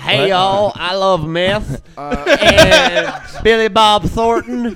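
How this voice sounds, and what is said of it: Put-on Arkansas Southern accent. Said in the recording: “What other accent should we do? I'll be from Arkansas.”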